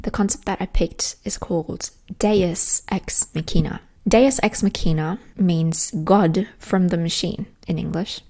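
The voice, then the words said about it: Put-on British accent. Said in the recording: “I'm going to have to morph into British, and I'm working on my British accent.”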